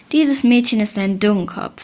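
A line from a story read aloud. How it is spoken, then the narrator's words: Plain. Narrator (German): sagte die Stiefmutter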